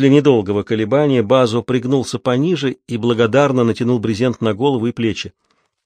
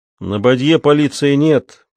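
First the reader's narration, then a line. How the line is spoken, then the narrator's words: Grumbling. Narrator (Russian): проворчал Ральф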